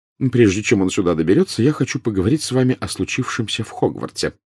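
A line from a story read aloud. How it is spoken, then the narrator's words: Quick. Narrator (Russian): быстро сказала она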